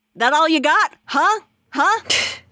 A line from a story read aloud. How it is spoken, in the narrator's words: she's just like shouting over her shoulder